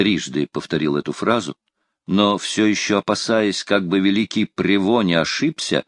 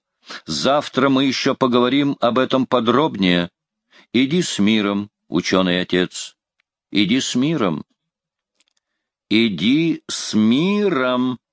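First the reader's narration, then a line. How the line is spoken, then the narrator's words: Loud. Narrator (Russian): Людовик громко сказал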